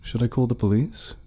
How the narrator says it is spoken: I asked nervously

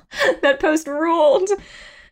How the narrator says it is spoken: She laughed out loud just remembering it

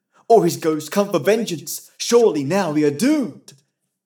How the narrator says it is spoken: they cried

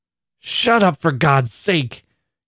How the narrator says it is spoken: cried Annie fiercely, as if in torture

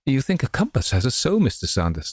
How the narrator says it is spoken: exclaimed the lady with a crackling of her silk flounces that conveyed a sense of outrage even more plainly than her tone

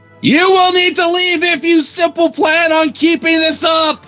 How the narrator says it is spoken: he roared, yelling

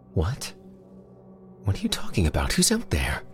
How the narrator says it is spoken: Elsie still yammering out a barrage of unanswerable questions

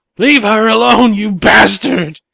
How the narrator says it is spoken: Deborah shouted with all of her fury

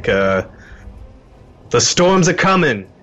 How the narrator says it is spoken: He'll shout out to Callie

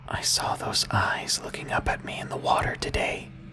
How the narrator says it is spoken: He whispered to me

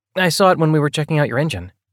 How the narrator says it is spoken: he added quickly

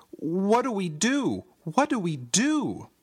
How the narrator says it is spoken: I cried

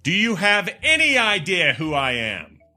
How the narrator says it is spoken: He asked loudly so the passengers behind him could hear

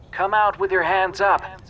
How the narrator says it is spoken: A bullhorn squealed

